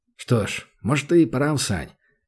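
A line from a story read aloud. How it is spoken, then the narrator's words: Muttering. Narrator (Russian): пробормотал Данил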